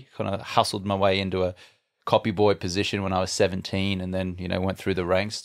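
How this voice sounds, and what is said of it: Australian accent. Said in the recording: “I'm Australian, as you can tell from my funny accent.”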